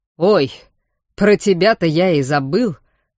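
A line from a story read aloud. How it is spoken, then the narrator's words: Laughing. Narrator (Russian): хохотнул Вархар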